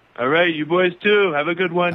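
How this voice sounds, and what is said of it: Imitates another person's voice. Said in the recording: “Always great to hear from the President of the United States ... So great to hear from Trump”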